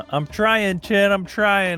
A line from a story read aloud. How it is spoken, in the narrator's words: Chesh yells out